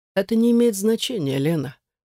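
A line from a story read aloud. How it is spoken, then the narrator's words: Patronizing sigh. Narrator (Russian): вздохнул он так, словно я маленький капризный ребенок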